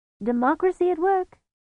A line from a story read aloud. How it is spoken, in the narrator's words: said happily